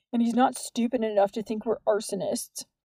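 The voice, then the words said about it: Smug tone of voice. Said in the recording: “in a smug voice”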